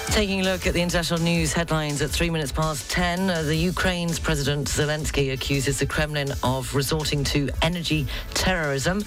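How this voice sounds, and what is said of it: Welsh accent. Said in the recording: “my Welsh accent”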